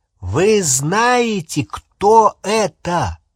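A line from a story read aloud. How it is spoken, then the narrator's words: Loud, deliberate repetition. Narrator (Russian): повторил очень громко и раздельно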